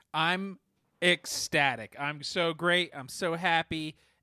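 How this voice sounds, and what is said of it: Unenthusiastic tone despite happy words. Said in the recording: “tell your tone of voice ... I don't know how to express happiness ... I don't think it sounds how I want it to sound”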